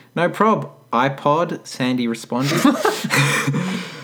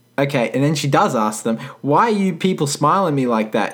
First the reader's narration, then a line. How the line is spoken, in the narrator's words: She said in her southern accent